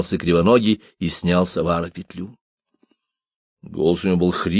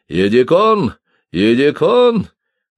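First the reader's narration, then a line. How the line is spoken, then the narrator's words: Shout of recognition. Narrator (Russian): только теперь узнал его и крикнул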